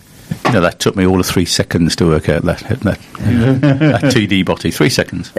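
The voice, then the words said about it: Slight Birmingham English accent. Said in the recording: “you've got a bit of a Brummy accent ... bit of a Brummy”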